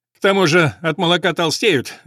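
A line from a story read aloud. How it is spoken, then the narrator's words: Laughing. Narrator (Russian): рассмеялся Мари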